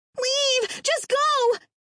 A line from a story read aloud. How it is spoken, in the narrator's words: Terry screamed